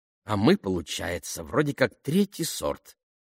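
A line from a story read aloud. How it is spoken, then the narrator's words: Grumbling. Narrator (Russian): проворчала Дайдо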